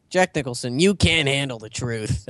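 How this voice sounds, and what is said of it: Imitates another person's voice. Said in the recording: “That's my impression of Jack Nicholson.”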